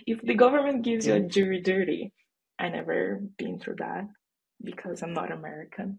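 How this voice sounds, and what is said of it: Brazilian accent. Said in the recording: “If you're sensing an accent, I'm Brazilian, not American”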